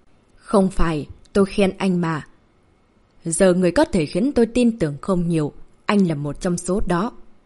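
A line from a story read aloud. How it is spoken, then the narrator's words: Stern voice. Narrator (Vietnamese): nghiêm giọng nói với Cổ Tử Ngôn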